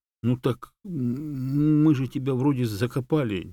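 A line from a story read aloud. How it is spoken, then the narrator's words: Uncertain objection. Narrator (Russian): неуверенно возразил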